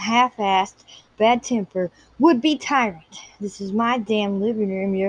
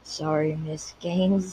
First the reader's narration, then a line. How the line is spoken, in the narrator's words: he murmured reluctantly